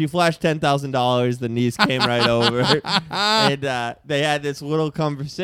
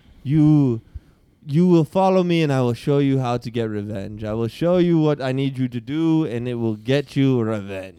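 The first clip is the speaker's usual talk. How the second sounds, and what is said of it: Put-on African-style film accent. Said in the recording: “Kind of have like the Black Panther accent. I like it.”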